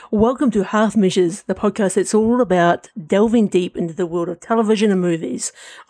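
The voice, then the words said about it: Polished podcast host voice. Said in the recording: “deliver it in your using your podcast voice”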